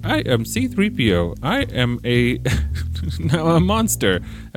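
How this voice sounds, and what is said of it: Impression of C-3PO. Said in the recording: “I should not try to impersonate 3PO or anyone, really. Every time in my life I've tried to do any sort of impersonation, it's just ended poorly.”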